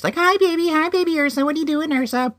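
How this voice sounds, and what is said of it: Baby-talk voice. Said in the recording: “like in that baby voice.”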